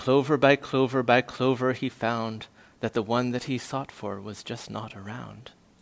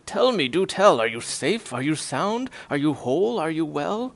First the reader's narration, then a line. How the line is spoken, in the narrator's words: cried the elephant